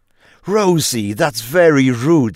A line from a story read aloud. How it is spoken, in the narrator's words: said her mother sharply